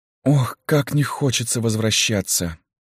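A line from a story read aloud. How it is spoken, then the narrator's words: Resigned sigh. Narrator (Russian): вздохнула Люся, понимая, что они правы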